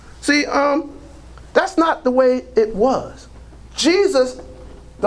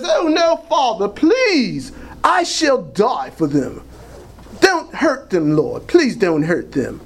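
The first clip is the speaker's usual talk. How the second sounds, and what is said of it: Put-on British accent as Jesus. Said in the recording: “I always use that British accent because a lot of the Jesus movies I see have British accents in them”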